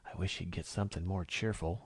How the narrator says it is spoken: Emerald whispered to Lou

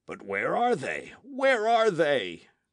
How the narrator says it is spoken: cried J

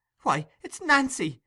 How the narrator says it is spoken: exclaimed Oliver, in irrepressible astonishment

